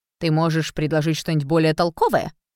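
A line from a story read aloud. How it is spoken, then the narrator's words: Snorted. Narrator (Russian): фыркнул Фред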